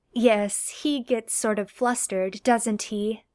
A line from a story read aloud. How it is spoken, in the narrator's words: says